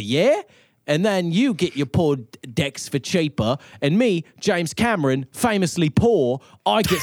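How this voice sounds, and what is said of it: Put-on cockney Austin Powers accent. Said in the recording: “that accent went on a went on a whole tour ... It's sort of a cockney Austin Powers.”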